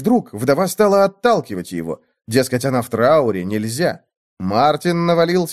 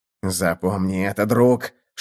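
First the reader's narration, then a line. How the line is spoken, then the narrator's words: Whispered. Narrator (Russian): шептал Мартин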